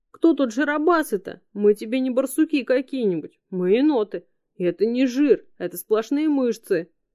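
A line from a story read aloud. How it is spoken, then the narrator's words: Indignant yell. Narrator (Russian): возмущенно завопил Харрис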